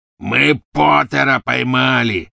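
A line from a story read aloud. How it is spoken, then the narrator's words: Triumphant roar. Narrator (Russian): победно проревел Сивый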